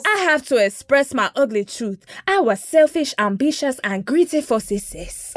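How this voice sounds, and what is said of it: Put-on generic African accent. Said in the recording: “I don't know how to do a Ghanaian Linda accent ... I'll do my general Africa accent, my Wakanda accent ... my general continent of Africa accent”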